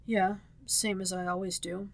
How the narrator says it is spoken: he murmured

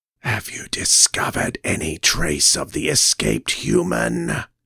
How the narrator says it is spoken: hissed the newcomer

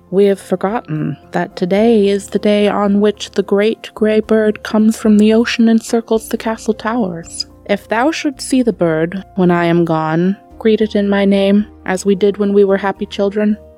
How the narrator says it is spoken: said the bird boy sadly

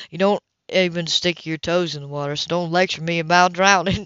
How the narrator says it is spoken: she chuckled

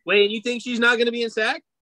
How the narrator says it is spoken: She shouted out Sac

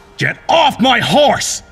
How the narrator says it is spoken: He bellowed

